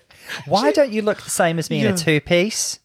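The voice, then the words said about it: Put-on Australian accent. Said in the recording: “Do you like my accent, by the way? ... Were you giving us Australian? ... I was giving the accent, yeah.”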